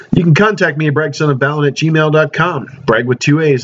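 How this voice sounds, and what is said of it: Strained, failing voice. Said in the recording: “just in time, my voice is leaving me.”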